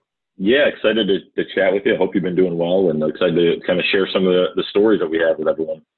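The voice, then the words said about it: American accent, upstate New York. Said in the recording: “clearly that's not a chipper UK accent going on there ... the accent was born and bred in upstate New York”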